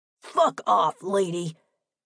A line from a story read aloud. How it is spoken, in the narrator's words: He barked at me